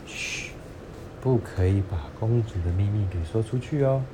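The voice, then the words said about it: Quiet, hushed voice. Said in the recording (Chinese): “爸爸就小声的说”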